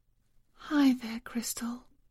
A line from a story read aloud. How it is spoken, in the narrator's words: she murmured